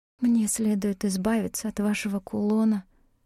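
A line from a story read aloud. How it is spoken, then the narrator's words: Whispered. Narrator (Russian): прошептала я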